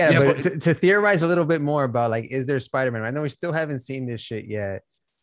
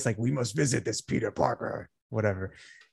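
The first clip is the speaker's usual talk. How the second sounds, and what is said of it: Imitates the symbiote's voice. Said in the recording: “That was a good impression”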